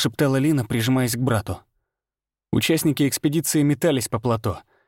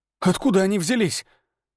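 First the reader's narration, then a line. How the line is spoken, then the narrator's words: Breathed out. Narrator (Russian): выдохнул Дамир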